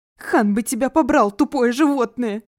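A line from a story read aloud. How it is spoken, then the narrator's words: Shouting. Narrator (Russian): кричал он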